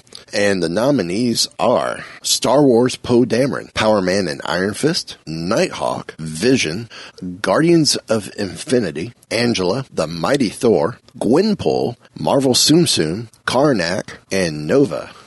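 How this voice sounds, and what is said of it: Announcer-style radio voice. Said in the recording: “all of a sudden, I'm hitting my radio voice”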